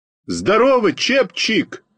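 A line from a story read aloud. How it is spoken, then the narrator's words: Shouted greeting. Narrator (Russian): крикнул я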